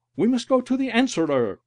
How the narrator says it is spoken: one cried

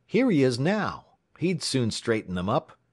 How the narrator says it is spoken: someone exclaimed

